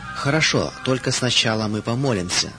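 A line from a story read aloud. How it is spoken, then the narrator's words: Calm, woman. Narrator (Russian): сказала она спокойно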